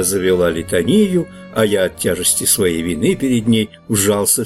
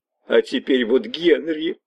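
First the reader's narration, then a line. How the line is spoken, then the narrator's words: Sobbing. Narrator (Russian): прорыдала она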